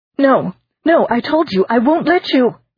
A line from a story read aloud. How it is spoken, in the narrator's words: the girl shrieked